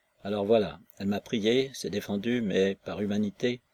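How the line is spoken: Hypocritical tone. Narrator (French): ajouta le gardien d'un ton hypocrite

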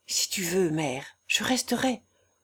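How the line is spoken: Quiet, low voice. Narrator (French): je lui dis tout bas

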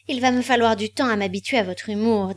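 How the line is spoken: Icy. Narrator (French): dit-elle d'un ton glacé

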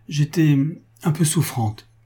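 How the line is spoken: Trembling voice. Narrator (French): reprit-elle d'une voix toute tremblante

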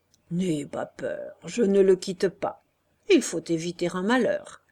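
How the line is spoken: Conciliatory, delighted. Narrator (French): Beru dit d'un ton conciliant, enchanté d'être dans ses histoires

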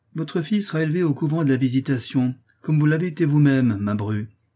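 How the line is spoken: Curt reply. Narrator (French): repartit le duc d'un ton sec

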